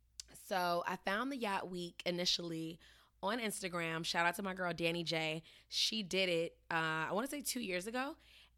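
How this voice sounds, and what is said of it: Slightly off, worn-out tired voice. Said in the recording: “my voice is still a little bit off because I was raging against the fucking machine for 7 days, and I'm pretty dead”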